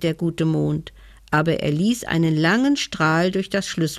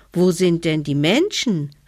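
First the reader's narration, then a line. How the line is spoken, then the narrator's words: Child calling upward. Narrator (German): rief der kleine Hevelmann hinauf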